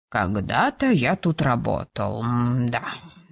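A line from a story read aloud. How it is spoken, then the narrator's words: Ghost, thoughtful drawl. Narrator (Russian): задумчиво протянул призрак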